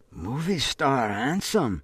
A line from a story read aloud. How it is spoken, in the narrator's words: she whispers